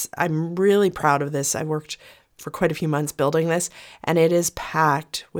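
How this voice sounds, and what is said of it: Croaky voice from a cold. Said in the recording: “my voice is a little bit croaky ... I've got my son's cold.”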